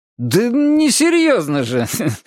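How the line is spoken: Forced laugh. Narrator (Russian): повторил Двуха, искусственно засмеявшись

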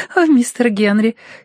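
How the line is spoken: Giggling. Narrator (Russian): хихикнула она

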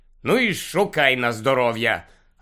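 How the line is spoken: Irritated mutter. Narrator (Ukrainian): роздратовано буркнув Гаррі

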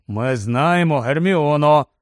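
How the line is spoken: Grumbled. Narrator (Ukrainian): буркнув Рон

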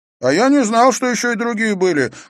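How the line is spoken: Shouting. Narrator (Russian): крикнул Иверсон

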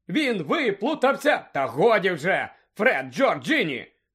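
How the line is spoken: Shouted. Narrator (Ukrainian): крикнула місіс Візлі

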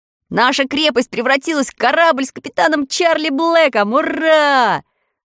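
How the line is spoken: Delighted shout. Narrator (Russian): в восторге закричал Тим

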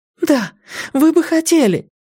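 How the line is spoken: Cry out. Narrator (Russian): вскрикнула девушка

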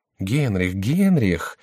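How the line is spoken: Quiet voice. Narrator (Russian): говорил тихим голосом Шико

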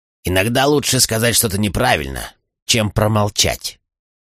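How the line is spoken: Grumbling. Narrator (Russian): проворчал Чейд

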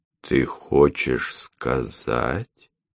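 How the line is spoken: Slow, hesitant. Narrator (Russian): медленно начал Андрей

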